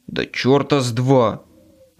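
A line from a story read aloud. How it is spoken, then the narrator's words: Growling. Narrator (Russian): зарычал я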